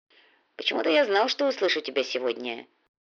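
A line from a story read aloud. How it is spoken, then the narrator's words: Muttered. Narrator (Russian): пробормотал индеец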